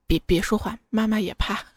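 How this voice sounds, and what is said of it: Whispered line. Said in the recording (Chinese): “小声”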